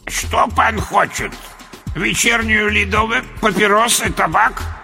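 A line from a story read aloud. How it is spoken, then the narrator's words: Old man's unpleasant voice. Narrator (Russian): Противным голосом поинтересовался старик-киоскер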